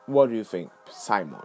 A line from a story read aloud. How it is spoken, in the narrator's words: he asked